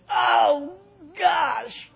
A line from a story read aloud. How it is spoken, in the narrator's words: she screamed